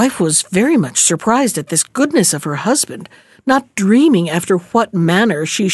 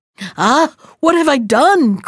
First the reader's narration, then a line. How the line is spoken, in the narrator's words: cried he